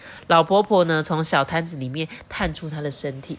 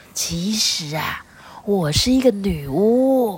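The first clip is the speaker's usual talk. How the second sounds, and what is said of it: Deliberately lowered, hushed voice. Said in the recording (Chinese): “刻意呢压低她的声音说”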